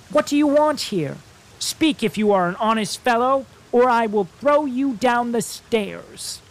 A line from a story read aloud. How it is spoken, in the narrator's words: The boy shouted a second time